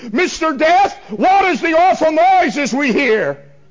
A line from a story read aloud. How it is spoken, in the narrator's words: someone yells from among the multitude